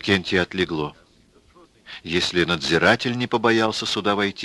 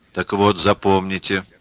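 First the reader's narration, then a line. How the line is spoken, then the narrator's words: Stern. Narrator (Russian): строго внушил надзиратель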